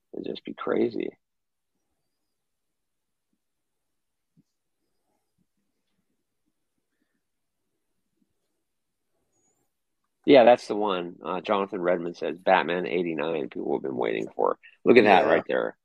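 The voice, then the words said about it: Hoarse, fading voice. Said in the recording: “I'm losing my voice now”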